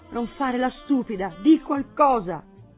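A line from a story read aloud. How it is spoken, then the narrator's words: Exclaimed. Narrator (Italian): esclamò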